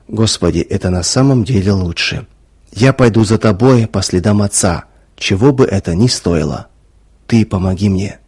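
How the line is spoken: Whisper. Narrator (Russian): прошептал

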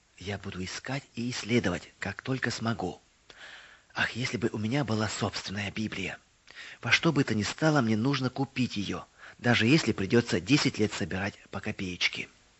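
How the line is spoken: Whisper. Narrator (Russian): Мэри прошептала

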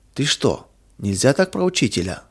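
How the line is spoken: Frightened exclamation. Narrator (Russian): воскликнул испуганно Миша

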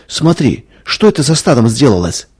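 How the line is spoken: Frightened cry. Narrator (Russian): испуганно вскрикнула Надя

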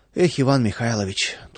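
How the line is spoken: Sighed. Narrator (Russian): только и вздохнул Владыкин

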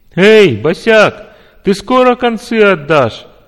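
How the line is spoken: Loud laughter. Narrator (Russian): захохотал

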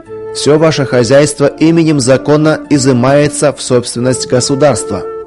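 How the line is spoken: Loud official pronouncement. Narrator (Russian): громко добавил руководитель оперативной группы

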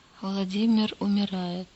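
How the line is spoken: Quiet speech. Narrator (Russian): тихо промолвил он

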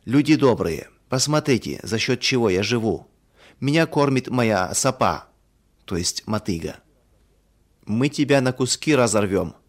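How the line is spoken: Angry villagers shouting. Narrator (Russian): в гневе кричала одна половина сельчан

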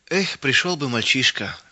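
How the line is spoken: Sighing. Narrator (Russian): вздохнул мельник

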